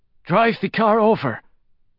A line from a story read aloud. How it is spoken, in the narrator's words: Ray Diaz wheezed out